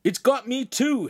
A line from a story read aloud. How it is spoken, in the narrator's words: Hansum cried